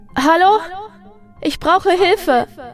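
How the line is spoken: Shouting as loud as possible. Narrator (German): rief so laut sie konnte

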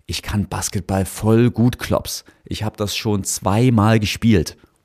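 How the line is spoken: Plain. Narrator (German): antwortete Luca

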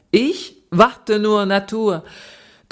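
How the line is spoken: Laughing and singing. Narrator (German): Thoma lachte und sang

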